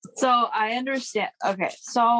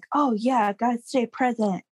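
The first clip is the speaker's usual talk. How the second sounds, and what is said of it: Odd put-on quoting voice. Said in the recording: “Why you always give them such a weird voice?”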